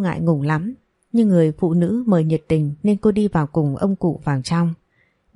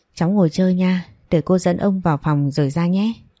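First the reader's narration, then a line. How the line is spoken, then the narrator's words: Sighing. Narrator (Vietnamese): Bà Liên thở dài nói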